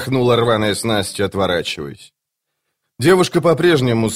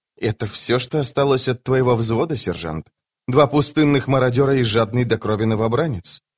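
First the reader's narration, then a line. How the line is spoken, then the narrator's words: Even voice. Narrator (Russian): Скворец ответил ровным голосом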